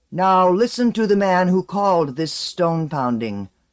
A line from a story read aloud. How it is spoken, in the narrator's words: the shaman herald called out